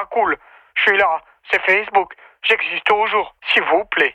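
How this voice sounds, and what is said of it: Put-on Swiss regional French accent. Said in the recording (French): “accent du Val de Travers ... C'était entre Neuchâtel ou le Jura. Pour l'accent. ... Bel accent.”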